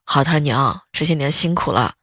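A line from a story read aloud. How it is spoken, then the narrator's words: Very tender. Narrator (Chinese): 他特别温柔的对老妈说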